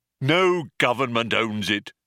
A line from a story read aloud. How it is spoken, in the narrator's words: snapped the robot